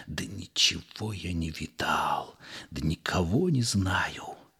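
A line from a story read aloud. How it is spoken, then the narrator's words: Pleased, smiling whisper. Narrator (Russian): довольно улыбался, и шептал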